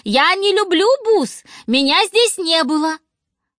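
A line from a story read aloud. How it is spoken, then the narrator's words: Shouted. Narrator (Russian): закричала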